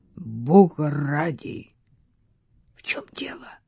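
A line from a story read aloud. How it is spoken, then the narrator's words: Strangled voice. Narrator (Russian): сдавленным голосом произнес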